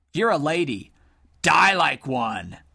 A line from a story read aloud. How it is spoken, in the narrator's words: screeched Sir Lonk, his voice cutting the night air